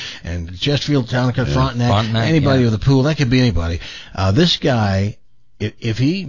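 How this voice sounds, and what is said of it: Usual voice. Nothing is said of it.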